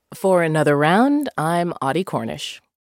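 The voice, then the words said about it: Polished radio announcer voice. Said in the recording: “In your radio voice. ... In my radio voice.”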